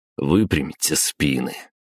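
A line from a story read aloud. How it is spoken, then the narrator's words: Weary. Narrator (Russian): устало произнес я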